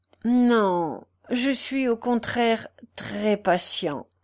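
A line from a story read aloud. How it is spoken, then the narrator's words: Doleful, deeply dejected. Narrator (French): répondit la victime d'un ton dolent qui accusait un effroyable abattement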